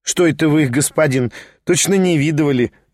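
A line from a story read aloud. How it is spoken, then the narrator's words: Laughing peasant woman. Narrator (Russian): рассмеялась баба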